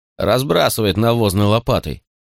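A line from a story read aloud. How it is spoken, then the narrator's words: Grumbling, rustic. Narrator (Russian): пробурчала Торнадо, возвращаясь к своей невежественной деревенской сущности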